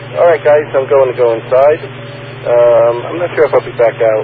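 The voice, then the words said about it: Hoarse, fading voice. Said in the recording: “I've been losing my voice here. I don't know if you hear it. ... I've been losing my voice all day. I think it's allergies.”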